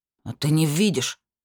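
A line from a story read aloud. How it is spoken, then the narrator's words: Spiteful question. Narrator (Russian): злобно поинтересовался Бармасур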